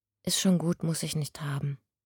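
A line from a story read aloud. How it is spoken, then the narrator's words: Quiet interjection. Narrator (German): warf Dante leise ein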